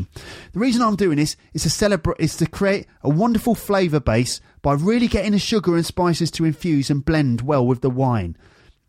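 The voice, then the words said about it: Bad Jamie Oliver impression. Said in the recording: “Shall I do a Jamie Oliver impression? ... It's the worst Jamie Oliver impression ever.”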